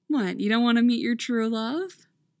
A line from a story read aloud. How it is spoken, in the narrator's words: Nora says teasingly